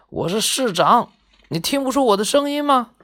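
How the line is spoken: Roaring, voice unrecognizable. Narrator (Chinese): 市长的吼叫让人完全听不出他的声音

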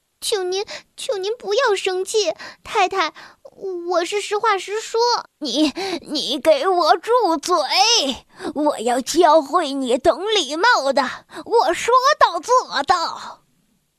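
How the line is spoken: Stammering. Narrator (Chinese): 莱亚结结巴巴地说

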